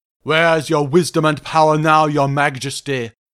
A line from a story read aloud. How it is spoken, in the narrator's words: growled Grinya